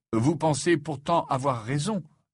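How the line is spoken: Plain question. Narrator (French): demanda Harry

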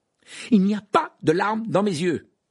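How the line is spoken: Loud protest. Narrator (French): protesta Harry d'une voix forte

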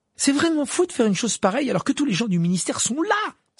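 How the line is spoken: Exclaimed. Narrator (French): s'exclama Hermione

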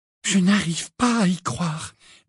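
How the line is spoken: Unsteady voice. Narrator (French): dit Hermione d'une voix mal assurée

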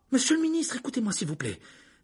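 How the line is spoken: Imploring. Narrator (French): dit Hermione en regardant Fudge d'un air implorant

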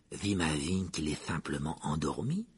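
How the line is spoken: Said in low voice. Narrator (French): dit Ron à voix basse

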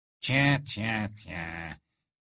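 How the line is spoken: Sneering. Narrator (French): ricana Rogue

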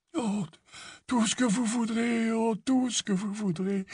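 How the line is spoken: Weak voice. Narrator (French): répondit le fabricant de baguettes d'une voix faible

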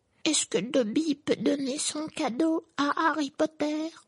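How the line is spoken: Timid squeak. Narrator (French): couina-t-il timidement

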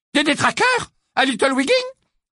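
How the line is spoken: Exclaimed. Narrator (French): s'exclama Mrs

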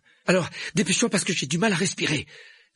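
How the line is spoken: Breathless, chest being squeezed. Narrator (French): dit Harry d'une voix haletante tandis que la plante lui étreignait la poitrine

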